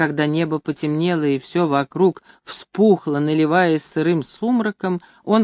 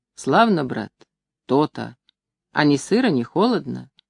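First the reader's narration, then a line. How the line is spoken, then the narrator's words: Question after deep sigh. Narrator (Russian): Иногда человек спрашивал, глубоко вздохнув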